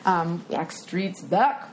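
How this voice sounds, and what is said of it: Weird put-on voice. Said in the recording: “That was a weird voice.”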